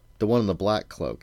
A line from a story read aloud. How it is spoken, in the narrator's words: he said again